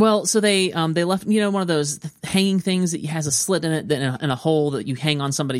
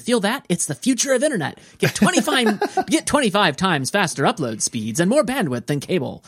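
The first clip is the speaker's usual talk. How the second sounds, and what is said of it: Mock announcer voice. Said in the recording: “trying to do my announcer voice”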